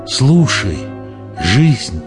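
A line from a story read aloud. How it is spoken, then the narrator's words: Quiet. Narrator (Russian): тихо сказала Дагни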